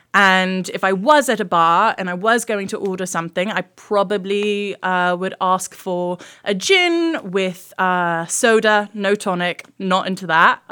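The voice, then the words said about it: Put-on British accent. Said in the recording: “That's my British accent”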